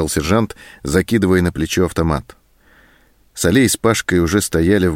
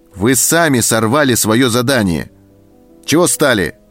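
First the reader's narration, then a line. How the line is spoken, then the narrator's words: Shout. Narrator (Russian): крикнул он на своих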